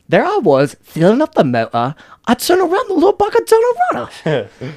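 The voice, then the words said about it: Imitates a character's accent. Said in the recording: “I love Carl Urban and his fucking accent for Butcher. There you are, Gov.”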